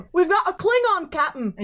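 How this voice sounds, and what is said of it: Star Trek style accent. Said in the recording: “her and her Star Trek accent”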